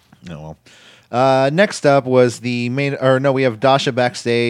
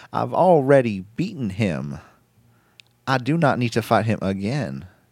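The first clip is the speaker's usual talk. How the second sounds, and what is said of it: Bad impression with southern twang. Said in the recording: “This fool talks like Christopher Walken, man ... I thought that was like a southern twang to it ... Maybe I just did a bad impersonation of it.”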